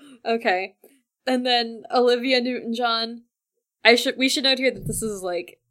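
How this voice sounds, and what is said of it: Usual voice. Nothing is said of it.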